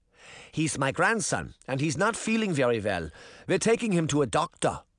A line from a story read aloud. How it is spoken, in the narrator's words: Granny said